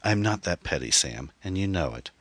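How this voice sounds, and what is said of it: Calmer, quieter speaking voice. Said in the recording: “in a calmer voice”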